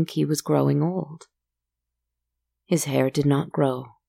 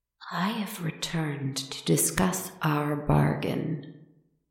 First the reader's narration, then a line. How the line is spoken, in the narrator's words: they said, their voice sickeningly soft and sweet